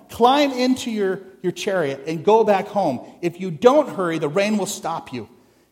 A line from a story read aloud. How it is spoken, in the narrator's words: Elijah shouted